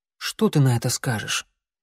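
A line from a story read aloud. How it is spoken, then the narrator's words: Quiet question. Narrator (Russian): тихо поинтересовался у друга клубок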